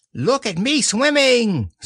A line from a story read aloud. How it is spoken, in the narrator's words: squeaked Roo from the middle of his pool